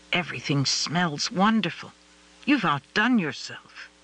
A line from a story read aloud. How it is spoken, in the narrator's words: Michael whispered